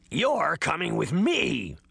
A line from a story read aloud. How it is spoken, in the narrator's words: she hissed